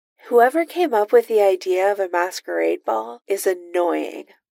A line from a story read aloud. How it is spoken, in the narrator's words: Iron Man sighs